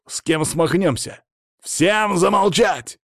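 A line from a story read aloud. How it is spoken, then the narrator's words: Loud bark. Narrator (Russian): гаркнул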